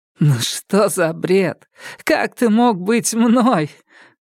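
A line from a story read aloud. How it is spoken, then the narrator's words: Forced burst of laughter. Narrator (Russian): Макс расхохоталась, но внутри этот смех бил ее, как кувалда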